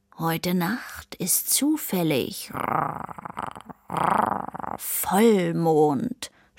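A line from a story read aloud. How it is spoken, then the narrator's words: Purring. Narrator (German): schnurrte Sammy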